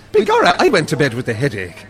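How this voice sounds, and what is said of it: Exaggerated stage Irish accent. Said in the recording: “what if it's a sort of a Darby O'Gill, Tom Cruise thing? ... that stuff that they do in Far and Away”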